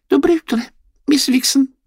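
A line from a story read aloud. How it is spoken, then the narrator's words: Squeak. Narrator (Russian): пискнула мышка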